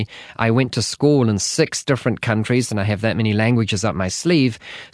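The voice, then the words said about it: New Zealand accent. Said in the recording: “as my accent probably gives away, I am not from the United States originally ... born in New Zealand”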